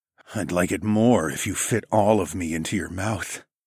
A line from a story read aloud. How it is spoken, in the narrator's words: I growled softly